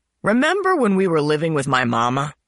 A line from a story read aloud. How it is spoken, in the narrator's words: Broward said loudly